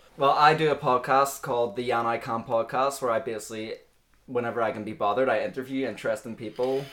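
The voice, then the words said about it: Non-English accent. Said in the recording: “I'm not actually from England, as you can tell by the accent”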